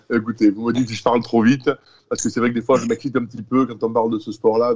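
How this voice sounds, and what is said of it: Southern French accent. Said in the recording (French): “On, aime ton accent ... L'accent du Sud, la, chaleur et la joie”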